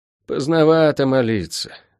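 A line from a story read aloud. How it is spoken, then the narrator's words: Sighing. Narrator (Russian): вздохнул целитель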